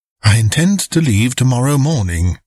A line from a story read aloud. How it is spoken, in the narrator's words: I answered, in a pacifying voice